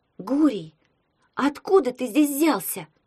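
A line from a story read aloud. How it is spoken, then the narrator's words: Shout. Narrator (Russian): крикнула Таня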